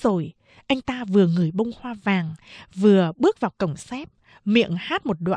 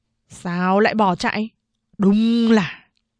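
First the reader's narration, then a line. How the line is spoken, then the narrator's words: Contemptuous grumbling. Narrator (Vietnamese): Tư Mã Khố khinh bỉ nhìn bọn dân quân, cằn nhằn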